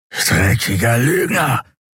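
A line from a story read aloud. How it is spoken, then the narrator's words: Hissing angrily. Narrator (German): fauchte er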